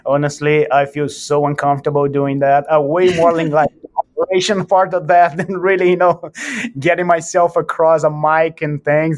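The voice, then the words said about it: Speaks with a noticeable accent. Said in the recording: “nobody understands what I'm saying, my funny accent”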